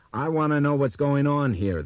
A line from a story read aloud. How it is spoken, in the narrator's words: the man in the crew neck jersey exclaimed abruptly